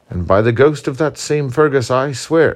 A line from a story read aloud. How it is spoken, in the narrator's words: exclaimed Murray